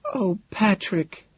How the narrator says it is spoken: she sighs

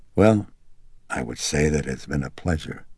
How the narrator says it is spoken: the detective said gravely

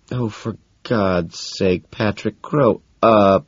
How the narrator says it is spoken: Evelyn moans

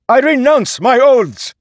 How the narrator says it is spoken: he shouted

